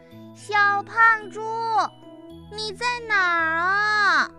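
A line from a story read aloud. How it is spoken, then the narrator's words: Little monkey shouting. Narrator (Chinese): 小猴子大喊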